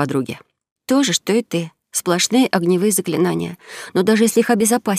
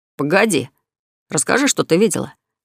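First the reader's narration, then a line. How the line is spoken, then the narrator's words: Angry interruption. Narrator (Russian): сердито перебил Берт, которому по сердцу резало упадническое настроение подруги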